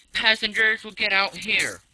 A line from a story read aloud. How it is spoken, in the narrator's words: shouted